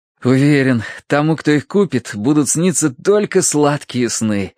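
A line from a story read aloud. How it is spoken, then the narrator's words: Blissful sigh. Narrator (Russian): блаженно улыбаясь Тосси, вздохнул Терренс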